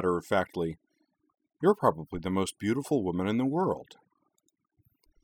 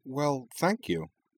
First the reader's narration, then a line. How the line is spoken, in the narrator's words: she said, entirely disarmed by the cheerfully candid way he'd said it